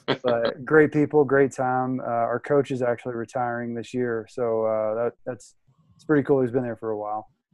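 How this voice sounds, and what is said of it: Noticeable regional American accent. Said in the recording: “the accent, yeah... a little bit... my accent got a little bit thicker”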